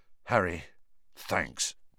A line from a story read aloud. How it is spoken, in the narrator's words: George muttered